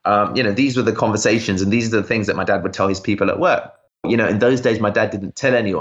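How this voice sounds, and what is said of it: Usual voice. Nothing is said of it.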